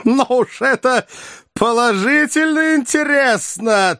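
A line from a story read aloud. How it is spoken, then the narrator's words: Speaking through laughter. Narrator (Russian): трясясь от хохота, проговорил профессор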